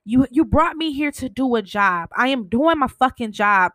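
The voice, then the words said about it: Emotional, agitated voice. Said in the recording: “I get emotional”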